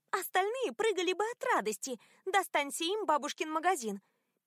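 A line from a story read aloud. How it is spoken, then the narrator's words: Squeaky voice. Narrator (Russian): пищала Мэриголд на чтении завещания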